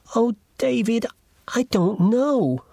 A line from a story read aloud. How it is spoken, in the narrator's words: cried Allison